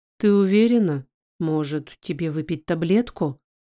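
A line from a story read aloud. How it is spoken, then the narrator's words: Gentle question. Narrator (Russian): спрашивает он мягко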